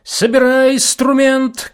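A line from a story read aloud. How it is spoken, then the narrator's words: Shout. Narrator (Russian): крикнул Осип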